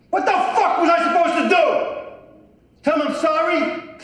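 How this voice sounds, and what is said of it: Angry yelling. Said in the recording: “he's yelling and, you know, being aggressive”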